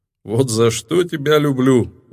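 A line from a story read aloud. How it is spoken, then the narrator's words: Laughing. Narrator (Russian): рассмеялся владыка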